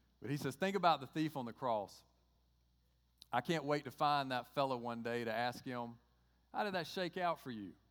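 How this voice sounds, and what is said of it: Southern American Georgia accent. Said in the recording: “you got to get through my Georgia accent”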